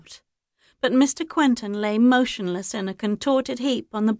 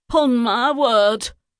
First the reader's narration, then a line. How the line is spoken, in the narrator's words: exclaimed